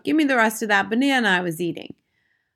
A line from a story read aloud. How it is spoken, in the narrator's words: Bruno called out